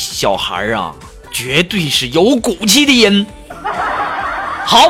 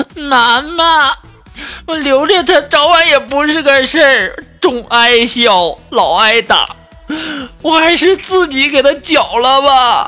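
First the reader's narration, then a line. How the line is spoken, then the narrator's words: Tearful crying child. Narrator (Chinese): 这个小孩啊就哭的眼泪巴叉，就说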